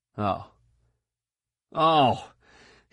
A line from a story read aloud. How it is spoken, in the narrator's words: gasped